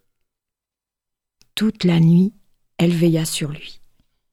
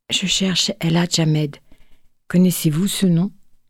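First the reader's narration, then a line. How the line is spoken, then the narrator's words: Soft, gentle. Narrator (French): dit-elle doucement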